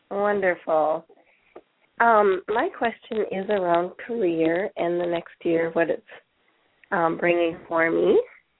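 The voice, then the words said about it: Congested voice from a cold. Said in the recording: “I have a nasty cold right now, so my voice is a little goofy.”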